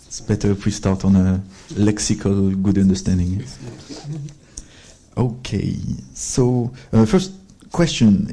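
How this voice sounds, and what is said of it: French accent. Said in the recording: “my bloody French accent”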